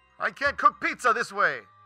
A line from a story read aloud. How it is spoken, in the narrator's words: he screamed